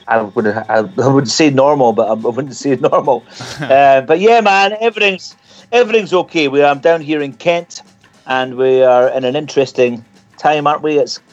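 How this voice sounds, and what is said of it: Scottish accent. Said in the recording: “you're the first Scottish guest we've actually had on the show ... I very rarely speak in my own accent”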